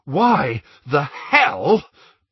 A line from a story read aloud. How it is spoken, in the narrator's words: panted Ron